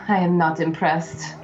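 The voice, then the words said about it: Put-on slight Russian accent. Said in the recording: “Looks like you are a little bit Russian, eh?”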